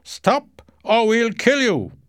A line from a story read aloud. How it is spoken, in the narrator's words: the captain shouted